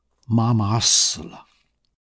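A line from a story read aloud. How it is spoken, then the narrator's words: Soft. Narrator (Chinese): 他轻声说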